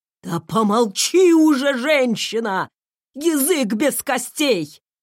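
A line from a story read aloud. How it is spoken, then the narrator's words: Barked, raised voice. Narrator (Russian): рявкнул Рэндалл, впервые на моей памяти подняв голос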